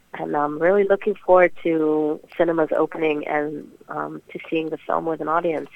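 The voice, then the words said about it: American accent. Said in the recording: “where did you get an American accent?”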